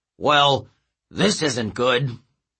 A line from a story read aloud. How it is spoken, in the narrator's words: Coach Hedge grumbling